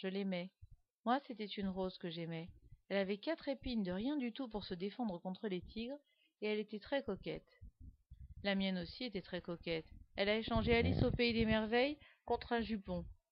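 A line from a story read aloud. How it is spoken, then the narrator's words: Slow speech. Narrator (French): dit Guillaume lentement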